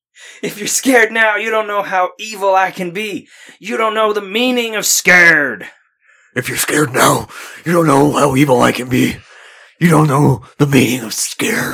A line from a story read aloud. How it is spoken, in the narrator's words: Neil shouted